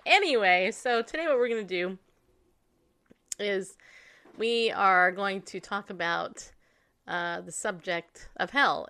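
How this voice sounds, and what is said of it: Congested voice from a cold. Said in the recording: “as you can probably tell, I have a little bit of a cold.”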